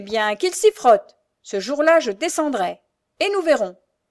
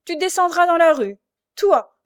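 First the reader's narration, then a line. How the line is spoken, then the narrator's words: Knight sneering. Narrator (French): ricana le chevalier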